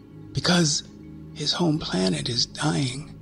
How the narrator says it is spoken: the nameless one said, barely above a whisper, the whirring of her arms almost drowning it out

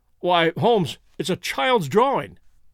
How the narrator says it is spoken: cried

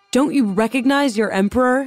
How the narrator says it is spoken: he shouted at the guards

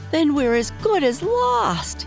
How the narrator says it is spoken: he shrieked

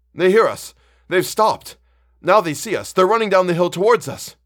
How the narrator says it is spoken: cried Ulrich

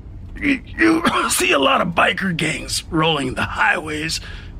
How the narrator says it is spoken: the wizard wheezed

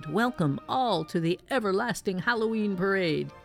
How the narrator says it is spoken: The parade announcer's voice boomed

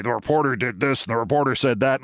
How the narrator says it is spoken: said

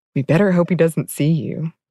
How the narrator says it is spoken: Tilda advised in the most serious voice she could muster

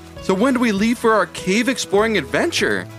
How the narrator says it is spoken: asked Ivy excitedly

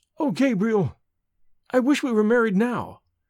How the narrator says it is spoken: cried Evelyn, in sudden distress

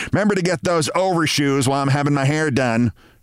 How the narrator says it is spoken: she said

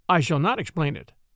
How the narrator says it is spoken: replied Werper

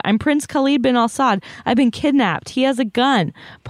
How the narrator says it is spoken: he screamed in LaGuardia

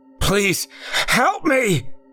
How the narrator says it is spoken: yelled once more

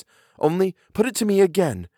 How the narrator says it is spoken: I cried in a way that made my friend stare

